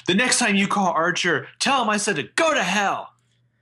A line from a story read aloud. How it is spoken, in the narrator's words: she yells